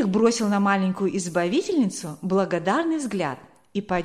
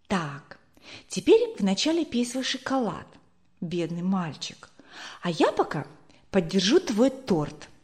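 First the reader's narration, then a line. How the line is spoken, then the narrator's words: Whispered. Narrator (Russian): прошептала ему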